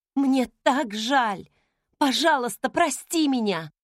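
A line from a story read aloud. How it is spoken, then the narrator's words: Exclaimed. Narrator (Russian): воскликнула я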